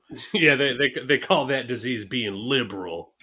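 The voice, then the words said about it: Put-on dumb Texan-style voice. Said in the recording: “doing the voice ... Time to move to Texas ... dumb voice”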